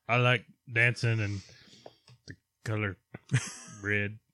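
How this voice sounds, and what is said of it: Imitates another person's voice. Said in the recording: “You sound just like it. ... That's my Gronk impersonation.”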